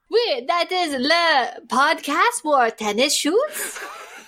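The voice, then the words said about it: Half French put-on accent. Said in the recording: “I wanted to do a half French accent.”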